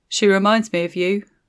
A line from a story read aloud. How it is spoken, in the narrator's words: he said